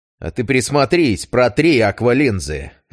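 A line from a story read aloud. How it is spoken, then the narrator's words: Harsh bark. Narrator (Russian): рявкнул я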